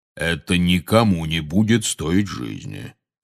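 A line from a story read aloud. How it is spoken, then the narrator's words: Soothing deep bass. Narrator (Russian): успокаивающе пробасил Кингсли Бруствер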